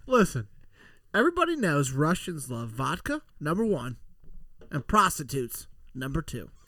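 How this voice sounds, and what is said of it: Bad put-on Russian accent. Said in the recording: “You sound really Russian right now... your bad Russian accent”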